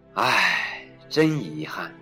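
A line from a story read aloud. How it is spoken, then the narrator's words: Sighing. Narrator (Chinese): 蜘蛛叹了口气说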